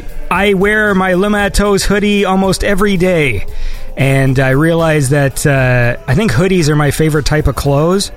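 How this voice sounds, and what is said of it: Scratchy, strained voice. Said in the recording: “I feel like I'm losing my voice. It's getting all scratchy.”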